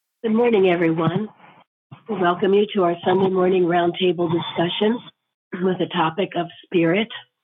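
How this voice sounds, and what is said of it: Squeaky, strained voice. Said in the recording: “Excuse my squeaky voice, but I told God if I could talk, I'd be here”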